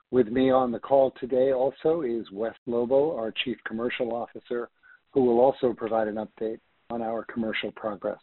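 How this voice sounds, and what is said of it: Hoarse, sick-sounding voice. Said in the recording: “I apologize for my voice. Just getting over a cold.”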